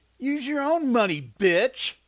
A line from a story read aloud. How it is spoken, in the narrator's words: Sneering, he said